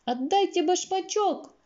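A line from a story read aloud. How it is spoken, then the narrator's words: Shouted. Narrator (Russian): закричала Элли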